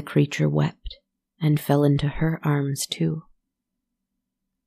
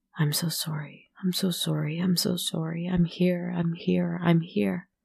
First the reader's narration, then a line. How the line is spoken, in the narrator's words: Her sister, in a frenzy whispered